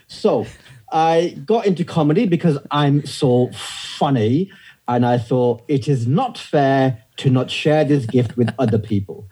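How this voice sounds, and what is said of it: British accent, slightly Scottish-sounding. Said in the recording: “Why does your accent sound a little bit Scottish?”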